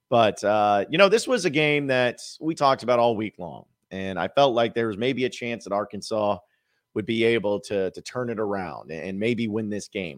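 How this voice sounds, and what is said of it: Slightly hoarse, froggy voice. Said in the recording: “I have a little bit of a frog in my throat,”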